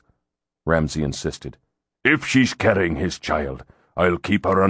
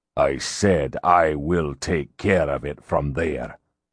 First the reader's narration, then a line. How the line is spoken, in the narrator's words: Ramsay growled